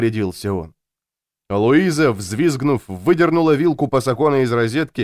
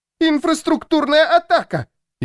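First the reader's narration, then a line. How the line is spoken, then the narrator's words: Louder shriek. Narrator (Russian): Еще громче завизжала она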